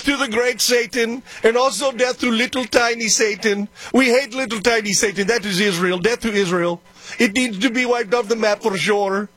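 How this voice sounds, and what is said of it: Impression of Iranian leader's accent. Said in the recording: “I don't know if he actually speaks in that accent... imitating Iran... the leader of Iran, the president, probably has some kind of an accent.”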